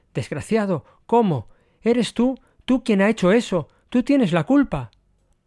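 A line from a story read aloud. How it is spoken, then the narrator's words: Exclaimed. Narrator (Spanish): oyendo que éste exclamaba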